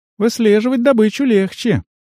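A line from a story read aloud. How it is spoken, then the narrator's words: Sigh. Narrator (Russian): Туай вздохнула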